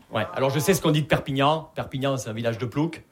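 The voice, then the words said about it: Southern French Perpignan accent. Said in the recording (French): “vous l'entendez à mon accent, je viens pas de Paris, je viens de Perpignan.”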